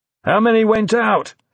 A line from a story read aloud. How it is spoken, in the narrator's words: he shouted to Dominic over the cacophony of ringing phones and shouting staff